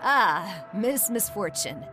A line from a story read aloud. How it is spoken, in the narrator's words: chuckled